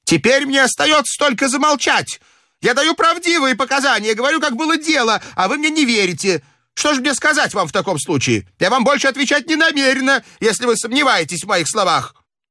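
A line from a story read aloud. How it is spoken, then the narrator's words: Furious shouting. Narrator (Russian): Мария Вильям в бешенстве закричала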